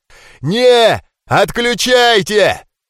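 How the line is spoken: Golem's roared command. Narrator (Russian): проревел голем, отдавая приказ защитникам

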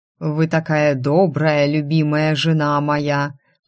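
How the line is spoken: Intimate purr. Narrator (Russian): промурлыкал

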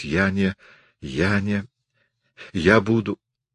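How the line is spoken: Stammering repetition. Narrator (Russian): повторяла, заикаясь

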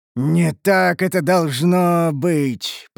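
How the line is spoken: Pained dying moan. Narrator (Russian): простонал гном, вернее, Дуэргар, морщась

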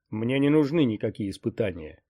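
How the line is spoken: Barking snap. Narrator (Russian): рявкнул Ксанатос

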